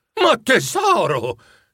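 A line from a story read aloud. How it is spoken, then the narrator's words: Horrified exclamation. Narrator (Italian): esclamò Bob inorridito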